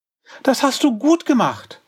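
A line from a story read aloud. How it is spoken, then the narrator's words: Called out. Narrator (German): rief Tilla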